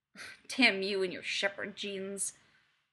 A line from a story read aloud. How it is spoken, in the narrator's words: he growls playfully